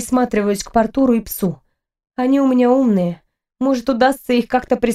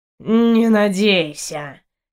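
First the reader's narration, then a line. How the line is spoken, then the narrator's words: Lazy yawning. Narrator (Russian): лениво зевнул кот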